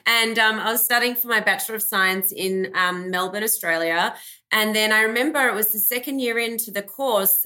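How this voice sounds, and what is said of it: Australian accent. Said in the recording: “I grew up in Australia, hence my accent.”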